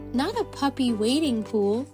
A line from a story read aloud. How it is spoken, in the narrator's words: chuckled Ben